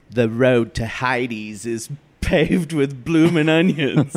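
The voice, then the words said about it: Put-on Australian accent. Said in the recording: “Is that my Australian accent? How was that?”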